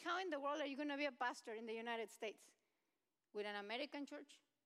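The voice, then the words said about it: Speaks English with a foreign accent. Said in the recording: “Here you are with your accent every day.”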